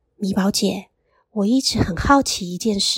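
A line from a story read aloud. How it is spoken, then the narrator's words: Quiet question. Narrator (Chinese): 玉妮小声的问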